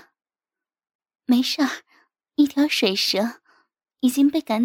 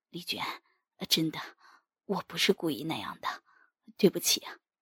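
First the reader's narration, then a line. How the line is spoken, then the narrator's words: Whispering. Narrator (Chinese): 永军悄声对我说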